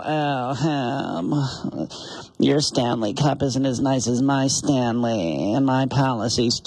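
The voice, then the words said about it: Snobby valley girl voice. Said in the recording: “the snobby valley girl”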